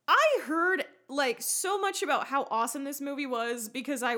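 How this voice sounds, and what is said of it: Usual voice. Nothing is said of it.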